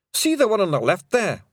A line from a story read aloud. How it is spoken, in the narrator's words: whimpered a Pictsy